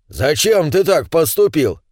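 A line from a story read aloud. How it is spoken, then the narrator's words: Indignant question, gnome. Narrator (Russian): возмущенно поинтересовался первый гном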